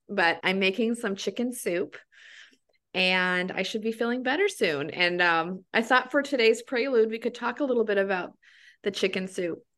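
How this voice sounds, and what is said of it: Slightly raspy, sick-sounding voice. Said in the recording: “my voice is a little raspy and I'm a little bit sick”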